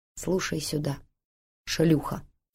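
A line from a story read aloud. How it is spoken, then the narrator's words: Calm, businesslike. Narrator (Russian): говорит спокойно, по-деловому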